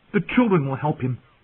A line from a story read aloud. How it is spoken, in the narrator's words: he blurted